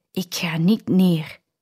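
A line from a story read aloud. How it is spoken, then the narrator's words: Whispering to himself. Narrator (Dutch): Hij fluistert naar zichzelf toe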